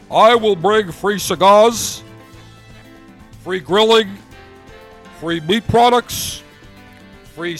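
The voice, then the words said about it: Bernie Sanders impression. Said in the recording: “my Bernie Sanders impression”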